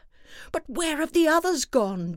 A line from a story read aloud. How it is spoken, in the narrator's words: Daddy Bear cried